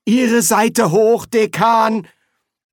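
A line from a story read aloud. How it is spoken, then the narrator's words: Straining groans, several voices. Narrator (German): Die Zauberer stöhnten vor Anstrengung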